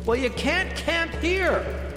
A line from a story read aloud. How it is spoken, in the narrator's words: Jenny shouted back